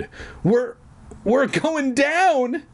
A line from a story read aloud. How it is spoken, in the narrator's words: Dad cried